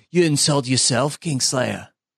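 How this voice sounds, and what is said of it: Impression of Robb Stark. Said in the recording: “That's a pretty good impression. ... Robb Stark voice”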